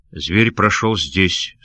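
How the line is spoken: Plain. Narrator (Russian): сказал он

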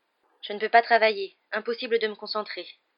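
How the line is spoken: Tense voice. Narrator (French): dit-elle d'une voix tendue

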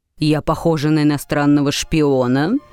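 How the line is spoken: Rather menacing question. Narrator (Russian): довольно грозно спросила миссис Беллок

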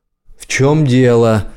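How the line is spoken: Shouting. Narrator (Russian): крикнула она

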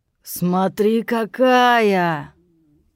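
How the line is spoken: Drawling voice from behind. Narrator (Russian): Протянул некто за спиной у Ирины

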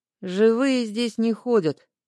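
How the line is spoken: Gloomy reply. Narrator (Russian): мрачно отозвалась

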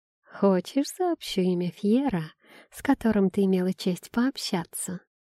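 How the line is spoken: Tempting female voice. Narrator (Russian): Искушающим тоном произнесла девушка

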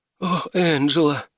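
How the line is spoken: Sigh. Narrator (Russian): вздохнула она

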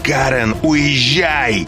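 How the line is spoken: Shout. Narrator (Russian): он закричал

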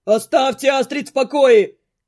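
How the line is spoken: Screaming. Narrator (Russian): вопит кто-то

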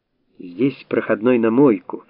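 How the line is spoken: Cheerful announcement. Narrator (Russian): радостно сообщил Стрельцов

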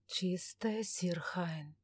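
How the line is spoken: Barely audible mutter. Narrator (Russian): чуть слышно пробормотал Трезор

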